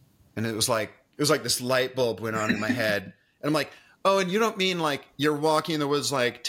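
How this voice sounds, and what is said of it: Usual voice. Nothing is said of it.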